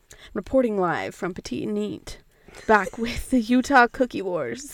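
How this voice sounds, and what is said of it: Put-on accent, attempted news voice. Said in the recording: “I want to figure out how to get a news voice so bad. That's an accent, not a news voice.”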